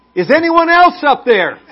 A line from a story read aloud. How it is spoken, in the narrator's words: yelled back